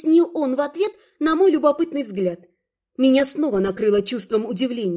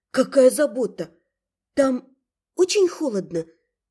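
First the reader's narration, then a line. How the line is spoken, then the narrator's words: Quiet question. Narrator (Russian): тихо спросила я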